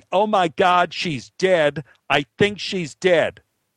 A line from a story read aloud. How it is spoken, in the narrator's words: One was yelling